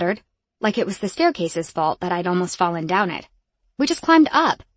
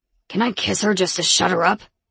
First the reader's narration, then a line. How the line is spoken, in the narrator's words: Rome grumbled